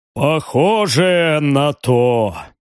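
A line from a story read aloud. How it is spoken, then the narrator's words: Heavy pensive sigh. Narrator (Russian): тяжело вздохнул барон, задумчиво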